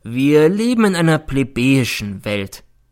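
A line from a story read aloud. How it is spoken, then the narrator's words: Sad remark. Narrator (German): nickte er mir traurig zu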